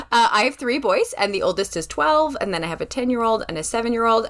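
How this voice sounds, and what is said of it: Western Canadian accent. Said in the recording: “I have a different accent. I come from Western Canada.”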